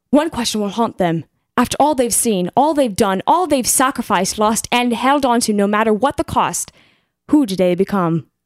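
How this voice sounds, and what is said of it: Light British accent. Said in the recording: “it was just a touch of British accent. ... Yeah, just a touch. ... It wasn't heavy. It was light.”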